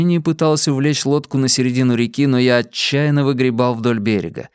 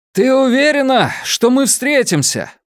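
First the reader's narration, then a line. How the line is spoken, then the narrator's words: Shout through rain. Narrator (Russian): прокричал я сквозь стену дождя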